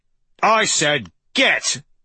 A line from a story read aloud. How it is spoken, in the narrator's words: Sackett shouted, in a sharp tone that was frightening enough to cause Persephone to jump